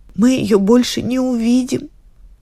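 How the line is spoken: Tearful. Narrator (Russian): говорит одна сквозь слезы

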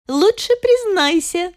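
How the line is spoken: Cheerful. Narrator (Russian): весело заявила

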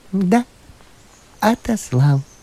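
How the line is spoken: Calm priest continuing. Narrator (Russian): спокойно продолжал священник

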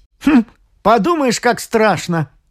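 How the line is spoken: Scoffing snort. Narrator (Russian): хмыкнул Томас

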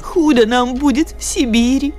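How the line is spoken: Sobbing. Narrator (Russian): Снова всхлипнула она

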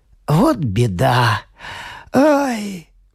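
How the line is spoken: Sigh. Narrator (Russian): вздохнул он

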